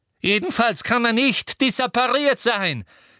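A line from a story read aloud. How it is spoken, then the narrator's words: Shouting. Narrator (German): schrie Umbridge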